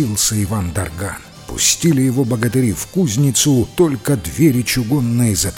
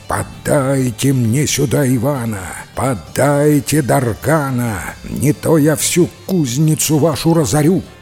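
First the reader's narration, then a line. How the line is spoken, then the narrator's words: Terrifying villainous shout. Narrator (Russian): злодейка страшным голосом кричит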